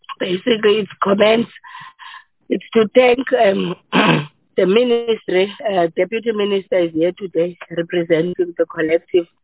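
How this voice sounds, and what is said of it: Hoarse, nearly lost voice. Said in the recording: “you can hear my voice is like literally gone”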